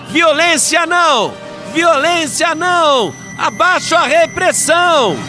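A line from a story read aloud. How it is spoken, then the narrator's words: Crowd shouting. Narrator (Portuguese): a outra multidão gritava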